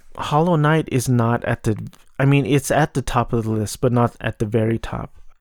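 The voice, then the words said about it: Monotone, low voice with vocal fry. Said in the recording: “I sound terrible. Monotone, depressed, vocal fry... I could fry eggs with that vocal fry.”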